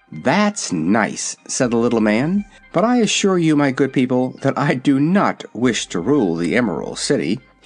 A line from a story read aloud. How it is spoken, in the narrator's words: he added earnestly